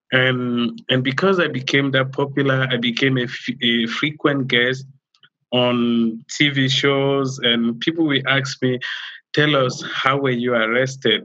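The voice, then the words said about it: African accent. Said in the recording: “my African accent”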